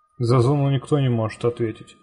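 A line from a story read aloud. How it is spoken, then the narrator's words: Dry reply. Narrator (Russian): сухо ответил сталкер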